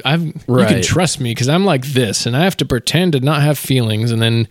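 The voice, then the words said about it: Mock newscaster voice. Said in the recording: “news voice”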